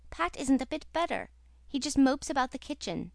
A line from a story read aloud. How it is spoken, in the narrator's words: said the Story Girl anxiously